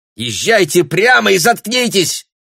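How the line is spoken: Shrill shout. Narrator (Russian): визгливо крикнул Бруно

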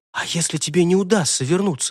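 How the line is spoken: Fervent whisper. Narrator (Russian): горячо прошептала она

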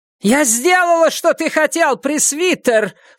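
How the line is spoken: Shouting again. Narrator (Russian): снова крикнула ведьма

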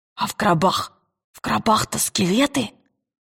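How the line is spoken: Whispered. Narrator (Russian): прошептал Роджер

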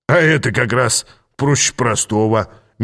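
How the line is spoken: Sweet cheerful grinning. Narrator (Russian): мило улыбнулся он мне, весело скаля зубы

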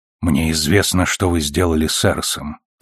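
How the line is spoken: Quiet. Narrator (Russian): тихо сказал Фред

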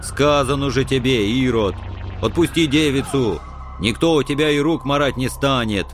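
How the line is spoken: Angry boom. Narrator (Russian): прогудел злобыня Никитич

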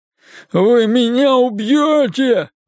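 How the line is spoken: Sobbing repeatedly. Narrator (Russian): без конца всхлипывал он

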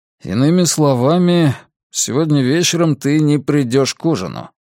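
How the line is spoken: Overly displeased question. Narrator (Russian): спросил Фабиан слишком недовольным тоном

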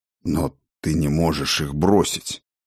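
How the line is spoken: Forced out, strained. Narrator (Russian): наконец выдавил он

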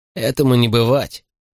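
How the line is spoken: Snorting dismissal. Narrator (Russian): фыркнул Морли

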